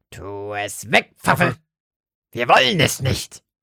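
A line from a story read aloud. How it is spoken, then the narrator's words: Croaking. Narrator (German): krächzte Lotte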